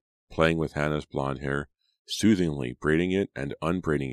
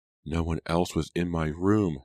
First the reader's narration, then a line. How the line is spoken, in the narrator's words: Hannah exclaimed